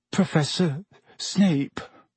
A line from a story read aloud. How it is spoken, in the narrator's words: Neville said, in barely more than a whisper